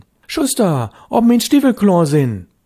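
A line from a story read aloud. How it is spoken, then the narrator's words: Calling louder. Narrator (German): Störtebecker rief schon lauter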